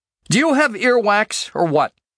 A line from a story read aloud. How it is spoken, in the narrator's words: finally snapped